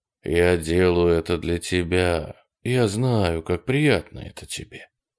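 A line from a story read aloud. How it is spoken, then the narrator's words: Quiet. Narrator (Russian): тихо говорил он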